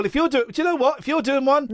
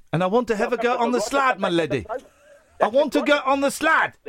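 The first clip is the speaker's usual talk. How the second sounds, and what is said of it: Put-on South African accent. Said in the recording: “An African ... I'm from South Africa, my friend ... Johannesburg”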